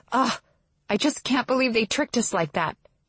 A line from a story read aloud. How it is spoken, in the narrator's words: she groans